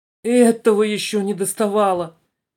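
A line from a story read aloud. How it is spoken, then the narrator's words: Moaning. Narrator (Russian): простонала пассажирка в темном углу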